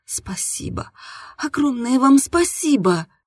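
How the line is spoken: Trembling voice. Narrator (Russian): дрожащим голосом произнесла я

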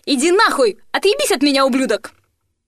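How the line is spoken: Furious screaming. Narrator (Russian): заорала

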